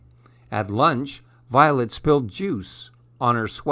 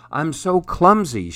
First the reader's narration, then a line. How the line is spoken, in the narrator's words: cried